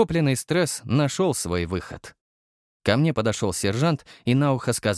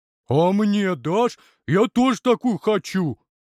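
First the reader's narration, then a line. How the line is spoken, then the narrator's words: Deep booming voice. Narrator (Russian): пробасил здоровяк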